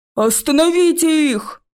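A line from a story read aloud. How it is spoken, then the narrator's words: Shout. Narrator (Russian): закричал старший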